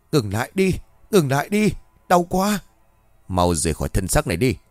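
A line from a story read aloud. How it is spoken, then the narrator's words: Shouted. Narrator (Vietnamese): Cường hét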